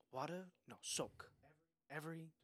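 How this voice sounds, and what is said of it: Put-on Asian accent. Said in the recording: “I'm gonna do an Asian accent.”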